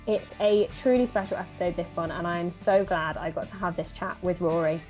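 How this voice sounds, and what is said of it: Southwest English accent. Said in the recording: “Where's that lovely accent from? ... Southwest England”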